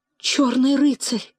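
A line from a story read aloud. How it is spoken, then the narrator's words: Barely audible, then joyful shout. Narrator (Russian): отвечала Ревекка чуть слышно, но вслед за тем закричала с радостным волнением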